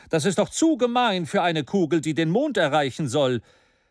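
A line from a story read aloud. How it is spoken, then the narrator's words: Scornful exclamation. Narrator (German): rief Maston mit tiefer Verachtung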